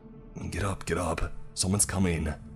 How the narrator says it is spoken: whispering to them

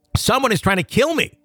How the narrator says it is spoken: my husband screaming

